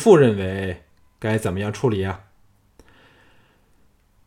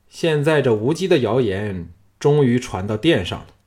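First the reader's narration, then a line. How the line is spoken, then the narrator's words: Calm, flat. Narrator (Chinese): 小盘恢复平静，淡淡的说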